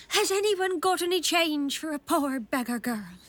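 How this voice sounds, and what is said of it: Silly put-on beggar girl voice. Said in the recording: “putting on a silly voice.”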